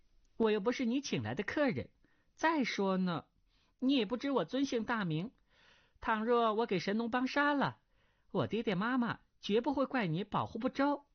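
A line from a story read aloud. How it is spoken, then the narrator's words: Girl, smiling. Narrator (Chinese): 那少女微笑道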